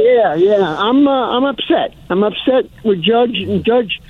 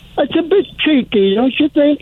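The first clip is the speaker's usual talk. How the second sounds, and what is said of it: Put-on English accent. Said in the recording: “I'll go on my English accent.”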